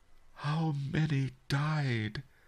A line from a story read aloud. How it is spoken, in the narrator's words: the merchant whispered